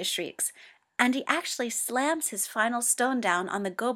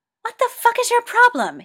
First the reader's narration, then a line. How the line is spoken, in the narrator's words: yells